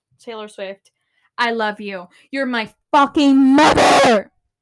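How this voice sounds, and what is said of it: Screaming into the microphone. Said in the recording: “if you expected me not to shout, then you were wrong. Because I always scream. ... I'm screaming way too much”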